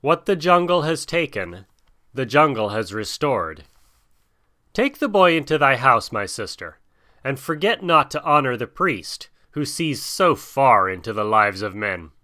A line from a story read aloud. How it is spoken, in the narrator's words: said solemnly